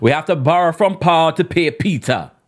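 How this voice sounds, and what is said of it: Put-on Jamaican accent. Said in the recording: “I'm going to say in a Jamaican accent”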